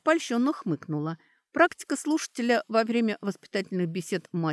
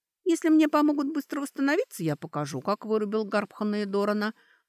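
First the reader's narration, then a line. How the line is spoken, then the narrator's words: Insinuating, silky. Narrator (Russian): вкрадчиво сказала она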